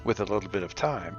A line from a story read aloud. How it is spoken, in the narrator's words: Irina murmurs